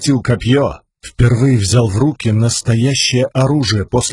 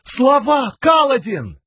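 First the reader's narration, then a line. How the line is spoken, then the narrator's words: Shouted. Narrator (Russian): Камень закричал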